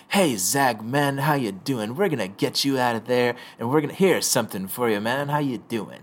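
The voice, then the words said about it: Seductive laid-back character voice. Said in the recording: “do a Dionysus impersonation ... I'm gonna very do my seductive. Best.”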